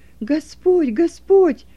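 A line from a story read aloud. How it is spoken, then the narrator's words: Joyful exclamation. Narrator (Russian): радостно воскликнул Стефан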